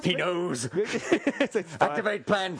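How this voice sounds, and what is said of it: Put-on alien character voice. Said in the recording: “My alien sounds like. ... your accent is terrible for my language ... It's my alien master's language.”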